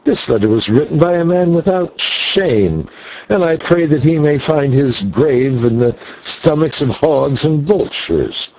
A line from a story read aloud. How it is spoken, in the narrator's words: I cried in wrath